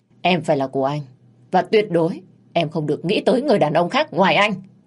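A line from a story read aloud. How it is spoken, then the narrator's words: Harsh, emphatic. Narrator (Vietnamese): Anh ta gằn giọng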